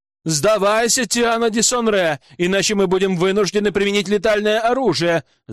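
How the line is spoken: Shouted from outside. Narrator (Russian): закричали снаружи

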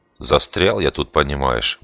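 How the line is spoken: Gruff mutter. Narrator (Russian): буркнул я

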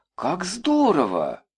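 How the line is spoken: Exclaimed. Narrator (Russian): воскликнула Маша

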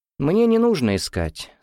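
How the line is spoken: Calm. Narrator (Russian): спокойно сказал Гуров

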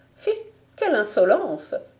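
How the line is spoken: Frightened lady exclaiming. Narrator (French): s'écria la dame en proie à une vive frayeur

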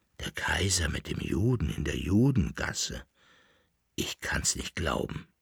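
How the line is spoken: Murmuring man. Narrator (German): murmelte der Leibnizer

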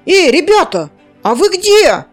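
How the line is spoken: Worried shout. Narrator (Russian): выкрикнул обеспокоенным голосом Зар

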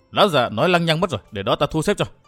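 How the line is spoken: Hasty scolding shout. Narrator (Vietnamese): Âm Tiêu vội vàng quát mắng Dương Lương

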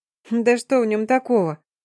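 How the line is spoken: Giggling. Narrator (Russian): хихикнула я

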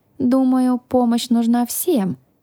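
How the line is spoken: Sigh. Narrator (Russian): вздохнула

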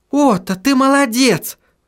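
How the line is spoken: Shouted. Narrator (Russian): закричала Сахариса

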